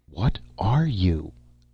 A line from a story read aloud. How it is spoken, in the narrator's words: I gasped